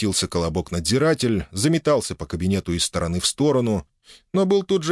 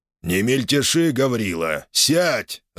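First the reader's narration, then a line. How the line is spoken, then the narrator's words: Growling. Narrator (Russian): рыкнул он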